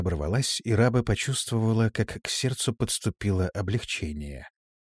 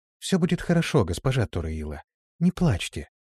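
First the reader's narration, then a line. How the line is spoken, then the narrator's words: Quiet soothing tone. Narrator (Russian): произнесла тихим, успокаивающим тоном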